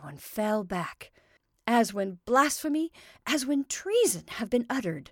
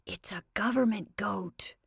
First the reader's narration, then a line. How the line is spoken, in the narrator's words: said young Joe in an awed whisper